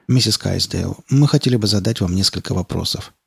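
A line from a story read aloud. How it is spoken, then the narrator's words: Soft, gentle. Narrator (Russian): мягко сказал Малдер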